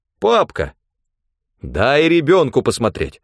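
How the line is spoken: Stern, curious command. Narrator (Russian): строго велела мать, тоже явно заинтересованная

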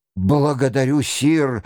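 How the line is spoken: Joyful cry. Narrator (Russian): радостно вскрикнул Ролан де Сент-Андре

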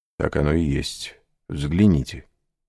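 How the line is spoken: Plain. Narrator (Russian): сказал граф

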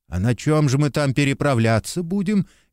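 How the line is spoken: Frightened question. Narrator (Russian): испуганно спросил Копытовский

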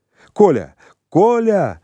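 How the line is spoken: Cry out. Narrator (Russian): Я вскрикнул

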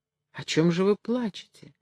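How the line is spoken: Trembling question. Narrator (Russian): дрожащим голосом спросил горбун

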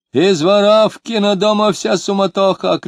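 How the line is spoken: Drunken shouting. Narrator (Russian): кричал пьяный

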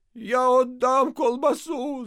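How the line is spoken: Shouting. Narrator (Russian): закричал отец Федор

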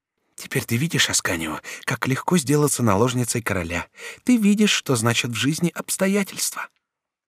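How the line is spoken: Whisper. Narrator (Russian): она шепнула ему

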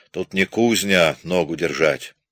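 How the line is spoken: Grumbling. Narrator (Russian): Солдаты ворчат

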